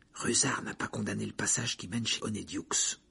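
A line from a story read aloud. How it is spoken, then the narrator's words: Whisper. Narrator (French): chuchota Harry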